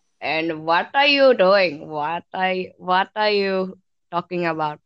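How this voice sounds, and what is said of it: Put-on Indian accent. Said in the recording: “Indian accent.”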